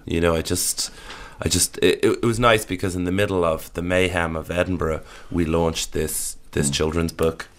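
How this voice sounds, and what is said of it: Voice lower than usual. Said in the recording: “my voice is a little lower than it would normally be”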